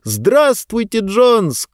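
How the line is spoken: Shouted reply. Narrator (Russian): крикнул в ответ Диба

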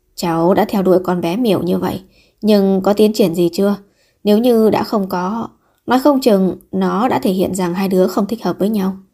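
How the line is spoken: Sighing old man. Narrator (Vietnamese): Ông cụ lại thở dài

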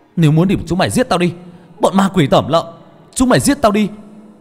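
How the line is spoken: Desperate scream. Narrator (Vietnamese): Tôi hét lên

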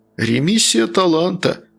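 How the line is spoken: Philosophical sad sigh. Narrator (Russian): философски вздыхал Натан Львович, печально

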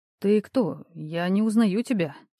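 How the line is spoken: Quiet reply. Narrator (Russian): тихо ответил Никита

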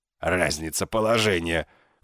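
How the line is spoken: Contemptuous snort. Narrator (Russian): фыркнул он презрительно

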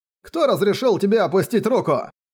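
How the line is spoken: Barked. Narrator (Russian): Рявкнул человек по фамилии Лю и едко добавил

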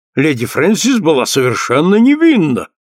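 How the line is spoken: Heated exclamation. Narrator (Russian): горячо воскликнул Джессинт

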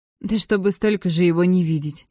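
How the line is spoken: Giggling. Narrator (Russian): Татьяна хихикнула

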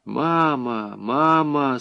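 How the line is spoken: Sorrowful sigh. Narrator (Russian): сокрушенно вздохнула Мария

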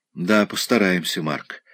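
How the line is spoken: Gloomy, dejected. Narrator (Russian): уныло произнесла

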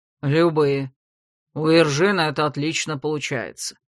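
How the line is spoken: Calm reply. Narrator (Russian): спокойно отозвался лорд Дагорн

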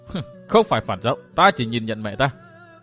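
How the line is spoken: Cold, dismissive laugh. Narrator (Vietnamese): Phan Ngọc Anh cười nhạt

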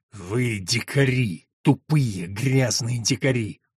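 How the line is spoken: Weary, through gritted teeth. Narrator (Russian): Старший агент даже не сказал, а устало процедил сквозь зубы

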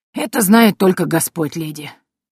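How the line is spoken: Hunter's sigh, then quiet. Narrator (Russian): Вздохнул охотник, а потом тихо сказал

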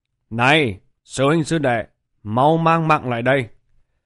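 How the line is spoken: Loud shout. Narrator (Vietnamese): Bạch Hiểu Thuần quát to một tiếng

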